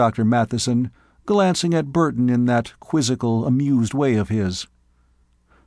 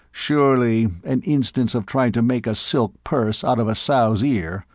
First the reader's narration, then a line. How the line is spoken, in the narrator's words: someone murmured